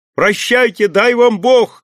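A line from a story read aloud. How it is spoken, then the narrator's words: Shout. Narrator (Russian): крикнул Петр Кузьмич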